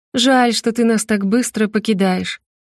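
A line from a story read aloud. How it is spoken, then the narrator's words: Snide, mocking. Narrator (Russian): ехидно проговорила она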